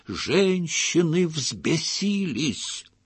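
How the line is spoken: Dramatic frightening whisper. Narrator (Russian): Хаджа страшным шепотом пояснил

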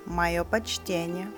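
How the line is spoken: Plain. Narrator (Russian): ответил Фред

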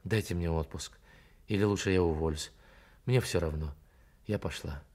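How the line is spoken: Muffled hurried mutter. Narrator (Russian): Глухо и торопливо, только не думать, Карин пробормотала

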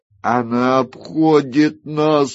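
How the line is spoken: Breathless exhale. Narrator (Russian): выдохнул Бориас Мун

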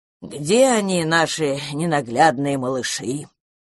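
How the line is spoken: Deep bass voice. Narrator (Russian): пробасил предводитель домовых Мелкослав

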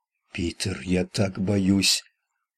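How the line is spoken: Whispered moan. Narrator (Russian): Прошептала, или скорее простонала она

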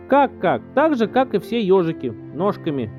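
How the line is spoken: Old man grumbling. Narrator (Russian): проворчал дедушка

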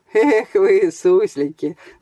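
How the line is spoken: Laughing. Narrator (Russian): засмеялся Саша

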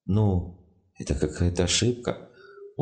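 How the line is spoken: Glum drawl, unfamiliar voice. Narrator (Russian): уныло тянул незнакомый голос

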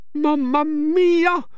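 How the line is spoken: Shouted. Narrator (Norwegian): roper Elsie

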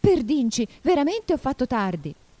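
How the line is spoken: Exclaimed. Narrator (Italian): lo sentì esclamare

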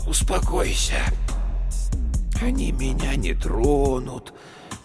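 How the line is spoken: Soothing sing-song. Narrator (Russian): Успокаивающе нараспев произнес он

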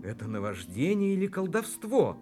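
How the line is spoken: Exclamation. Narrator (Russian): воскликнул пленник

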